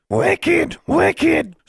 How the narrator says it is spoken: screamed Charlie

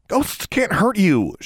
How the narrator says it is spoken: she snapped

